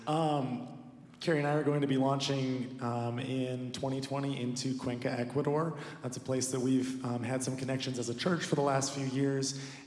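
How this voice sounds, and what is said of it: Voice sounds sick. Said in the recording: “I'm a little sick, so forgive my voice.”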